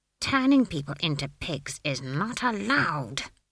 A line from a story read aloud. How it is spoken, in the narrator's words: she hissed